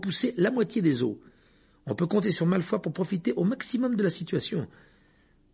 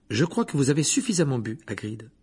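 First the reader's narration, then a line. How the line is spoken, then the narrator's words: Firm, decisive tone. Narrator (French): dit Hermione d'un ton décidé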